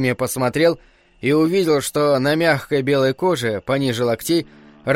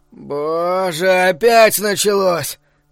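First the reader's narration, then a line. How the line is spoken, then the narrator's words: Groaning. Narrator (Russian): простонал Барри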